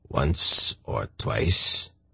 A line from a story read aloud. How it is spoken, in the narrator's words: the hierarch replied sullenly